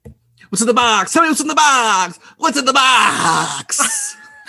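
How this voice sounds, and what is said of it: Movie-line impression, slightly Boston accent. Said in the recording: “There was some accent in there I couldn't quite place, but it was pretty good ... it was a Boston. Boston. ... It was a little Boston-y.”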